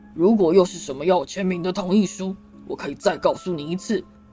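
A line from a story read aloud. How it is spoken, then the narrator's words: Shouting. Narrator (Chinese): 他吼道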